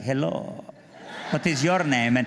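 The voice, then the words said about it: Puts on a foreign accent. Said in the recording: “by this time I'd lost my accent, but I got it back”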